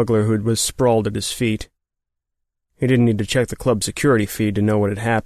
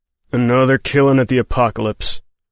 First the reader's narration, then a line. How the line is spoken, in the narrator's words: the marshal growled